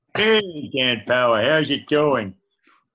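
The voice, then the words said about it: Homer Simpson impression. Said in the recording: “anyone want me to do a homer impersonation?... Let's do Homer.”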